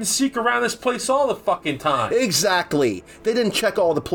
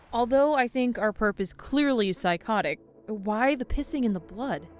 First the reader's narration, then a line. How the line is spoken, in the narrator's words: I sighed